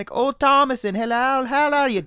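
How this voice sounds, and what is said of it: Mock old Puritan English accent. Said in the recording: “what's the accent? ... Puritan speak”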